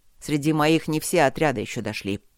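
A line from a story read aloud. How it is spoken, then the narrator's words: Growling. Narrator (Russian): сказал он рычаще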